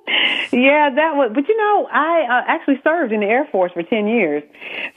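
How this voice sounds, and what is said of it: Southern American accent. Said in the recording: “you have this wonderful Southern accent ... South Carolina”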